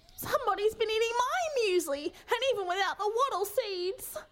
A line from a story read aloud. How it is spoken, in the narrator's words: whined Mama Kay in dismay